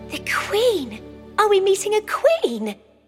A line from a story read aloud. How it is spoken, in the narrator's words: Abel asked excitedly